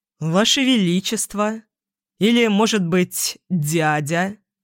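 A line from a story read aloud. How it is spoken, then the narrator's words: King, snide reply. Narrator (Russian): ехидно ответил король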